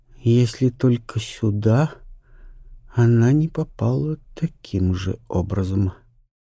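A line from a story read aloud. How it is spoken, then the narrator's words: Drawling. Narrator (Russian): протянула леди Августа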